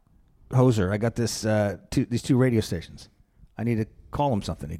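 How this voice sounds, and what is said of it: Put-on Canadian accent. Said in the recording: “I'm trying to do a Canadian accent.”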